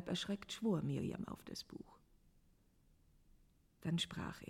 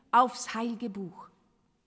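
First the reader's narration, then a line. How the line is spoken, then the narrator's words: Stern harsh command. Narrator (German): herrschte Enoch streng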